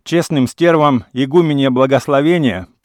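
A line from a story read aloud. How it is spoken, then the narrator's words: Shouting. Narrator (Russian): прокричал он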